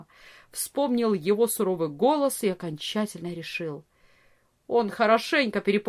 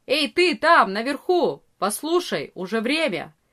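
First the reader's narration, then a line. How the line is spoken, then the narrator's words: Loud shout. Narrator (Russian): Арея кричал громко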